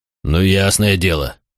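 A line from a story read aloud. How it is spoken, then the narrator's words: Disappointed grumble. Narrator (Russian): проворчал Макрон, не скрывая разочарования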